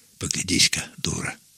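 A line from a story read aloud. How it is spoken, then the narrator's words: Giggling whisper. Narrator (Russian): зашептал Меркулов, хихикая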